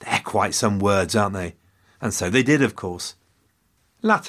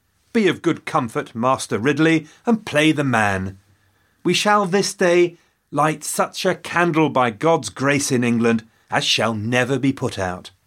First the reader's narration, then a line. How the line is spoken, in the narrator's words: Latimer called out to his friend